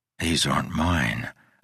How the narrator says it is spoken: I whispered

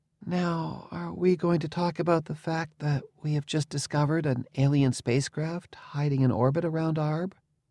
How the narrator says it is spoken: She asked in a tiny, coy voice

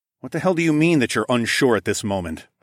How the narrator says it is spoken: snapped

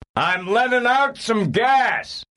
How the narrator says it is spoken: he shouted to Serafina Pekela

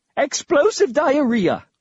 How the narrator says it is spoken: exclaimed

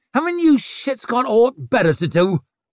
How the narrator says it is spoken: snapped

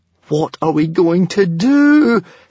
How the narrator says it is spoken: Hiccup wailed, in despair

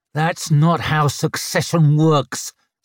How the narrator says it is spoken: snarled Tunny as he was shoved onto his knees

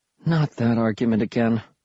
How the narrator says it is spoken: she said, sighing

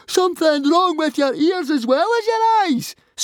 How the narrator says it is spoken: screamed Fishlegs

